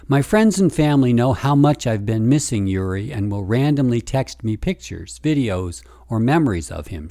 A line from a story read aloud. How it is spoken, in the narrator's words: she said